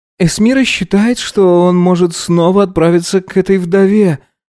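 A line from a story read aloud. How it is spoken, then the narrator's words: Sighing. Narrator (Russian): вздохнул Эльнур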